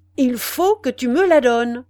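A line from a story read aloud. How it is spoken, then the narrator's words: Thundering young man's voice. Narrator (French): répéta le jeune homme d'une voix tonnante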